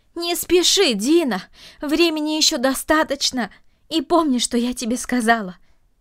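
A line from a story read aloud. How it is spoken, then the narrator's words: Shout after someone. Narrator (Russian): крикнула она ему вслед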